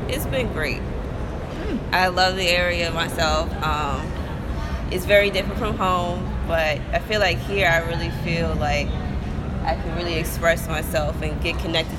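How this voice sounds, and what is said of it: New Jersey accent. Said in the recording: “as people are hearing, you have an accent ... I'm from Jersey originally ... my accent still hasn't left me”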